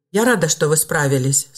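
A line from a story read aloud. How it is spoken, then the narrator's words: Calm, confident, smiling girl. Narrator (Russian): спокойно и уверенно улыбнулась девушка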